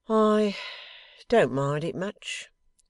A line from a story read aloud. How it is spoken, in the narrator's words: returned young Blight, heaving a sigh as if its bitterness were past